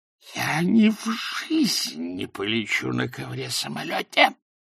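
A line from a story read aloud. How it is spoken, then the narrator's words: Whisper. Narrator (Russian): прошептал он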